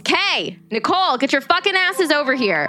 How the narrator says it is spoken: he yells

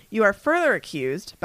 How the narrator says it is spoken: bellowed Mr

